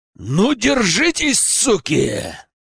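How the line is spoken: Growled. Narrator (Russian): прорычал я

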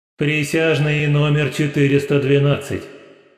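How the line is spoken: Booming voice from above. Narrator (Russian): прогремел приговор с небес

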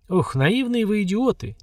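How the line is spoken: Heavy sigh. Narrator (Russian): тяжело вздохнул генерал

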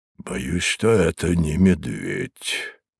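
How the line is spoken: Muffled, hollow voice. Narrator (Russian): глухим голосом произнес хозяин

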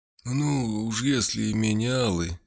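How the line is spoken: Drawled. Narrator (Russian): протянул Отто Штуфер

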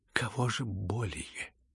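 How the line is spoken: Quiet. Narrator (Russian): тихо произнес Лебедев

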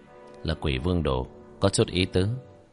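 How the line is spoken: Soft amused smile. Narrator (Vietnamese): khẽ mỉm cười

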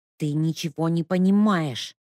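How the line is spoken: Hissed reply. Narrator (Russian): тоже зашипела в ответ Леська

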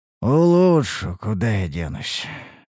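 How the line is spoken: Resigned sigh. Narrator (Russian): Вздохнул, осознавая весь объем предстоящей работы

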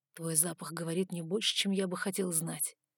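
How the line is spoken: Quiet. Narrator (Russian): сказал он тихо

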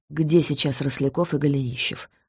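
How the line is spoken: Plain. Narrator (Russian): спросил Долгоруков

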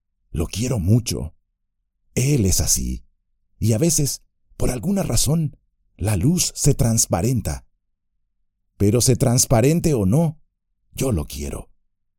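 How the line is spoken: Murmuring. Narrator (Spanish): como si descubriera que las palabras eran inútiles, y luego murmuró

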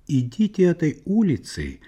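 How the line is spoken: Plain. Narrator (Russian): сказал

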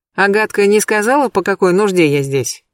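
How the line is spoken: Continues with a sigh. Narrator (Russian): я вздохнула и продолжила

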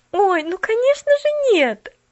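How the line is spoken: Exclaimed. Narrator (Russian): воскликнула Поллианна

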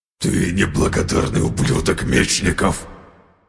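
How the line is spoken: Hissing. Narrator (Russian): прошипел Асклепий

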